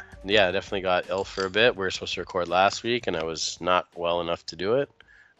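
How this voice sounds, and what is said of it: Slightly gunky, congested voice. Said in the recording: “can hear it in my voice. I'm a little bit like gunky ... your velvety voice ... even with a little bit of gunk”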